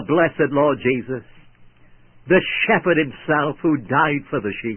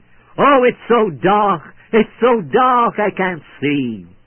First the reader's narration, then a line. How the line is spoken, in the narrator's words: He lay dying, he cried out